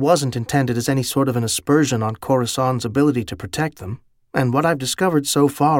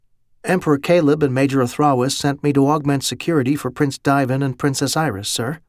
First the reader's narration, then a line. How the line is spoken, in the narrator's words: replied calmly, in an accent